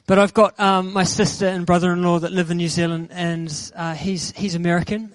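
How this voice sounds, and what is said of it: New Zealand accent. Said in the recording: “I'm originally from New Zealand, if you haven't already picked that accent up.”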